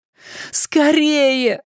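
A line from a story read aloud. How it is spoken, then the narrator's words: Pleading. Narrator (Russian): взмолился Дориан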